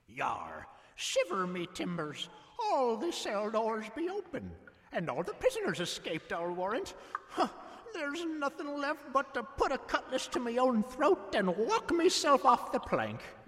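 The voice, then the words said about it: Pirate voice. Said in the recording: “speaks pirate.”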